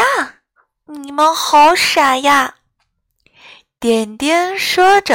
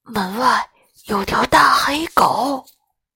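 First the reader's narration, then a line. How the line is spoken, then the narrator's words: Low voices. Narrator (Chinese): 他们低声回答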